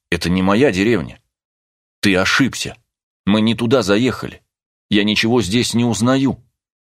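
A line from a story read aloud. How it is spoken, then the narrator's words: Angry. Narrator (Russian): Она гневно взглянула на него и сказала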